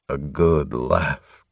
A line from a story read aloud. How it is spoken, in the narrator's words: Covenant sighed morosely